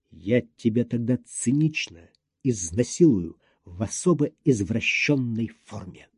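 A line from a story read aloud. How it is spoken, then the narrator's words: Ominous whisper. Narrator (Russian): сказал зловещим шепотом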